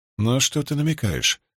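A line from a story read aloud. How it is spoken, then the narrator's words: Plain. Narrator (Russian): спросила Рисн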